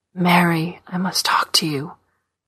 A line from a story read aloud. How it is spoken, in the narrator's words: said, whispering